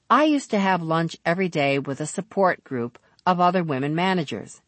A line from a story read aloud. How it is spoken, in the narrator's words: she said